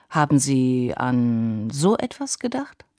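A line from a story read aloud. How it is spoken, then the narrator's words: Hesitant. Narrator (German): sagt Gale zögernd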